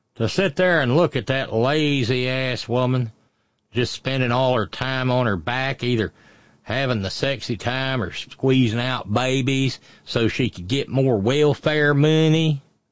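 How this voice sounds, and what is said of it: Put-on Appalachian accent. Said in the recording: “I've moved into the Appalachian accent, haven't I?”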